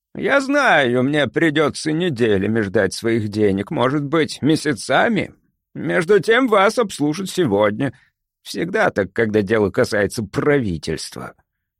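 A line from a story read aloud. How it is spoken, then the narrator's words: Grumbling to himself. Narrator (Russian): проворчал он, обращаясь к самому себе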